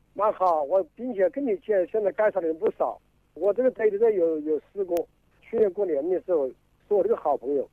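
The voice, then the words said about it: Wuhan regional accent. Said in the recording (Chinese): “我听你口音，你是哪里人啊 ... 哦，你是武汉市拆点区的”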